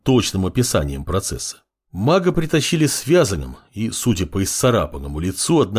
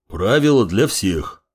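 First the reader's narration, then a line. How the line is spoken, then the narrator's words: Deep bass voice. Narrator (Russian): пробасил дежурный с расцарапанным лицом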